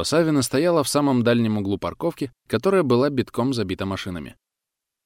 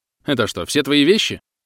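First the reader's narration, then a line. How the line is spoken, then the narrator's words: Snorting. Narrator (Russian): Хмыкнул он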